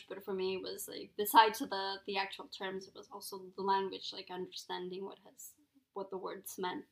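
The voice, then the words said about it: Spanish accent. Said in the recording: “people can definitely tell I have an accent and that it's, like, a Spanish accent.”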